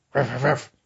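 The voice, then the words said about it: Imitates a barking dog. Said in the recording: “That's my dog impression.”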